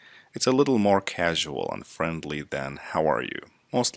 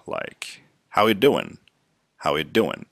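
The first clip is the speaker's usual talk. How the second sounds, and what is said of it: Fast, casual, run-together speech. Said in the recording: “Sometimes we say it faster”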